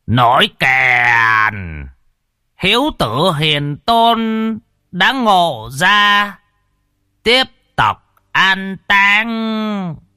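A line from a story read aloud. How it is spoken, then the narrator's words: Loud ceremonial call. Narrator (Vietnamese): vị chủ tế thong thả, miệng lại gào lên kêu to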